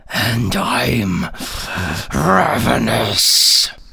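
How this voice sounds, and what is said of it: Imitated monster character voice. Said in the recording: “my impression of the Ravenous”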